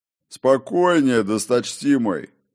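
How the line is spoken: Deep bass voice. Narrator (Russian): пробасил Горм

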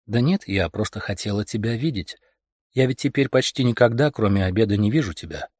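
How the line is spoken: Overly calm. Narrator (Russian): ответила Ольга Петровна, как-то особенно не в меру спокойно

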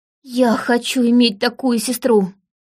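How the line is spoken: Forced out with effort. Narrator (Russian): Наконец Сильвия выдавила

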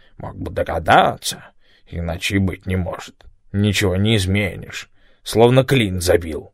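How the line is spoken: Angry muttering. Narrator (Russian): Том со злобой бормотал под нос

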